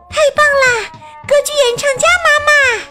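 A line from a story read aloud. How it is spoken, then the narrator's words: Girls shouting excitedly. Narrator (Chinese): 女孩子们喊道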